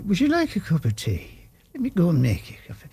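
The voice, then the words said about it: Put-on Irish accent. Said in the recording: “I'm Irish, you know ... I've got this stupid voice ... I'll have this Irish thing in my head”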